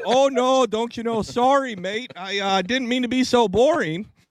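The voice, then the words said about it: Put-on Michigan Australian Canadian accent. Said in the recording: “Is that like Michigan? ... That was a Michigan Australian Canadian accent.”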